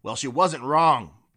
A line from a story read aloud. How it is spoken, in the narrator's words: barked Vago